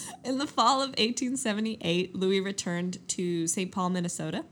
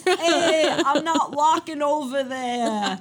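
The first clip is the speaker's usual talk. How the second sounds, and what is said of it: Put-on New York accent. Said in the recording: “We haven't gotten to do New York accents”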